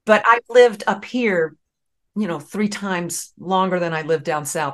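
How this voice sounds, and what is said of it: Southern American accent. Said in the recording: “I hear the Southern accent”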